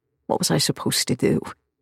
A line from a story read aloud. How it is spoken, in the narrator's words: He asks through gritted teeth